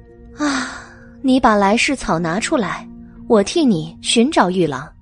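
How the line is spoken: Sigh. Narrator (Chinese): 白姬叹了一口气

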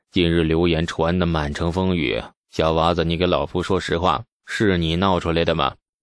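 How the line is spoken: Low, grave voice. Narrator (Chinese): 牛进达沉声地说

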